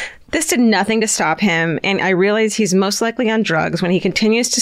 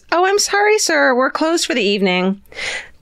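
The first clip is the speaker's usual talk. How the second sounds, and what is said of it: Polite customer service voice. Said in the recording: “in my customer service voice”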